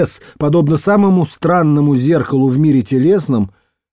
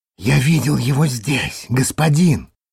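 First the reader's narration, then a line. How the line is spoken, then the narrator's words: Worker whispering. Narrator (Russian): прошептал рабочий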